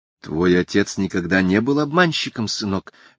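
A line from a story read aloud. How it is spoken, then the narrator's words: Soft, matter-of-fact. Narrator (Russian): мягко констатировала миссис Делливан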